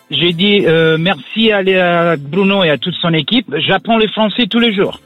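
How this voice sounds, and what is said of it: Italian accent speaking French. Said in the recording (French): “Ton accent est superbe... l'accent italien”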